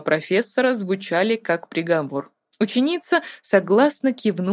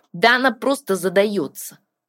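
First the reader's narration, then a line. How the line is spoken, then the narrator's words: Disgusted snort. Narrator (Russian): фыркнул Тин с отвращением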